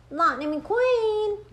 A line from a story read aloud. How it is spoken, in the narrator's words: Mater shouted